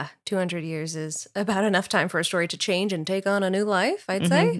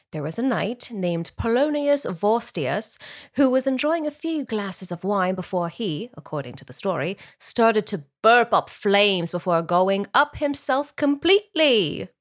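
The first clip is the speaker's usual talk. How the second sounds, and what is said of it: Put-on British accent. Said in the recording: “I could listen to you do the whole podcast in that voice. It's great. ... I wasn't even doing my best British accent”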